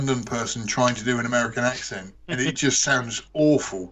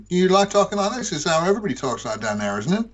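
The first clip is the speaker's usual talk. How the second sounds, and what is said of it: Unconvincing put-on American accent. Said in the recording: “What kind of American accent do you want me to do? ... That's not even close.”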